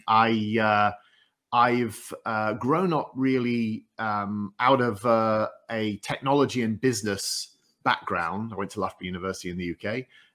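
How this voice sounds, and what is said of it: Northeast English accent. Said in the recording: “I'm from the northeast coast of England, as you can tell by my accent”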